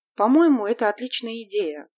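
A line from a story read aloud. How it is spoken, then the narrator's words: Surprised. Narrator (Russian): сказала Дэнни, удивленная тем, что мальчики спокойно восприняли эту новость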